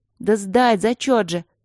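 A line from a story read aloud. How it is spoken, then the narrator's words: Angry explanation. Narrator (Russian): сердито объяснила Алинка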